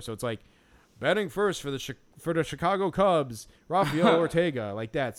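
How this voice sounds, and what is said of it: Chicago accent, booming announcer-style voice. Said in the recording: “like almost a typical Chicago accent ... but still in that like that timbre, like that like, you know, announcery kind of timbre”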